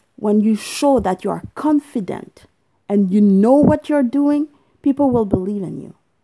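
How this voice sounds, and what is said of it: Non-native English accent. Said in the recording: “You don't need to have a perfect English. Look at me, I have an accent and I'm proud of it. ... I speak French, English, Spanish”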